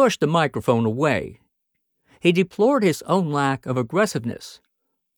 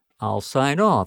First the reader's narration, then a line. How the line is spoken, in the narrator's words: said Hardwick dryly